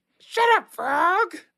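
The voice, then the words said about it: Miss Piggy character voice. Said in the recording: “do the voice ... what you don't like Miss Piggy?”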